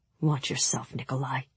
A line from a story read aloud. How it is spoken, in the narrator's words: Mal said softly